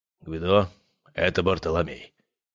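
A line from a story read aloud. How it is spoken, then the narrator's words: Quiet, hoarse voice. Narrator (Russian): сказал аристократ и микрофон тихим, хриплым голосом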